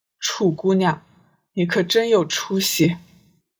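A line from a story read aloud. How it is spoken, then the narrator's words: Sighing. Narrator (Chinese): 魔君叹息一声，道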